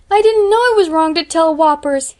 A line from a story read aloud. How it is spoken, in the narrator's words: he sobbed